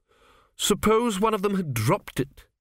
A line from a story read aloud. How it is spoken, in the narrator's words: snapped